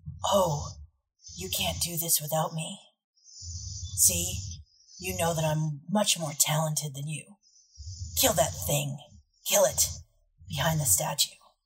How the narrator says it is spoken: this voice, and you don't know where it comes from, and it whispers

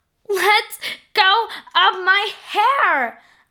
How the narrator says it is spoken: Amanda cried

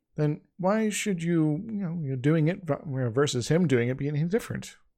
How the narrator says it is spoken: Eivok sighed

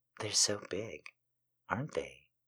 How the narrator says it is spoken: Katrina murmured

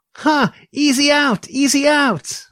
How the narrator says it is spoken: Another boy yells

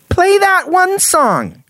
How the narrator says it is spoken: Jenny, who was currently in the kitchen, yelled out to her friend

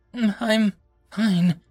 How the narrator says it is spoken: said, her voice filled with pain

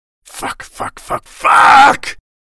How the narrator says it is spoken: Jacob roared

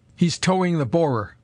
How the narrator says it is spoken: cried the doctor in exultation

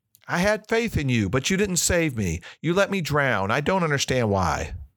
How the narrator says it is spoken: exclaimed

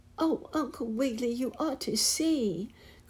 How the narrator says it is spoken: cried

